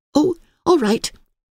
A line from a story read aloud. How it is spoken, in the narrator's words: agreed Emily cheerfully